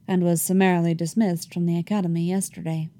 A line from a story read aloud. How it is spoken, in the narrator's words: Thrawn said blandly